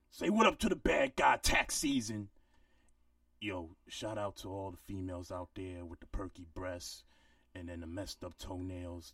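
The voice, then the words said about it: Imitates another person's voice. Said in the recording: “great Tax Stone impersonation”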